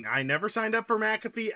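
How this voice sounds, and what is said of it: Shouting angrily. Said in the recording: “Why are you shouting?”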